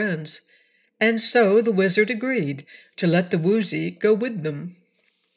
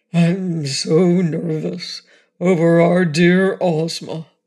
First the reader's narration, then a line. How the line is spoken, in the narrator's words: said the Cowardly Lion in his deep, rumbling voice